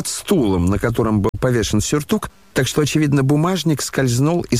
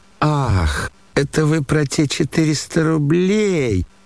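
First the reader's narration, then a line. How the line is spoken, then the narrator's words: Drawling, sudden realization. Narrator (Russian): протянул Лебедев, точно лишь сейчас только догадался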